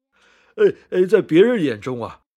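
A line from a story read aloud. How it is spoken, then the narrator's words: Laughing loudly. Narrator (Chinese): 狮子大笑的说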